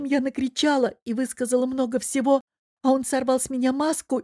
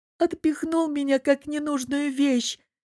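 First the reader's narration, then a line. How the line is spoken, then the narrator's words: Muffled sobbing. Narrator (Russian): всхлипнула Лиза, закрывая лицо руками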